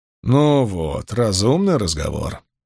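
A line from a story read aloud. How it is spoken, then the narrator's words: Grumbling. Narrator (Russian): проворчал Джонни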